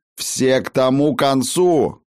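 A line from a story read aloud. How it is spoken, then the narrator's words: Shout. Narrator (Russian): Заорал Тан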